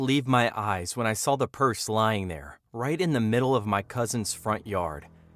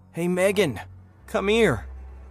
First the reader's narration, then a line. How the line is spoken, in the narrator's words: I shouted, my voice trembling with a mix of relief and confusion